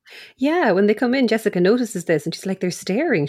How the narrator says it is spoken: she says quietly to Lila

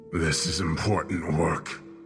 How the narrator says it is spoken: he growled, an unseen darkness creeping into his voice

